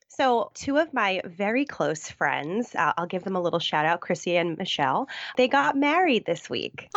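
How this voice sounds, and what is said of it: Deep, husky voice with vocal fry. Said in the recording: “I've got a little cold ... deep, sexy radio voice ... I'll get my sultry tones ... A little bit of extra vocal fry”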